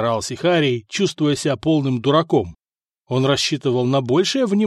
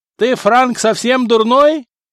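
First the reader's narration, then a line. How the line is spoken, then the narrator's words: Guard yelling. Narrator (Russian): заорал стражник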